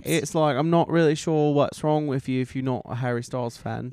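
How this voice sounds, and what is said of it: Put-on Australian or British accent. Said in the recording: “a Jermaine Australian accent or a Harry Styles accent”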